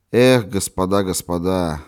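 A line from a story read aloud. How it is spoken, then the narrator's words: Exclaiming with a sigh. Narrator (Russian): воскликнул он, вздохнув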